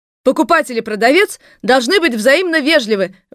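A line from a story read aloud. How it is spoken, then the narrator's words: Upstart blurting out. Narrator (Russian): выкрикнула с места выскочка Робинзон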